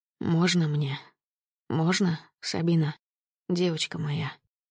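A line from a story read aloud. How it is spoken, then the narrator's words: Breaking whisper. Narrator (Russian): Срываясь, шептал Глеб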